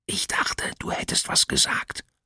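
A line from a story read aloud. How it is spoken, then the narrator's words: Whisper. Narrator (German): flüsterte Abby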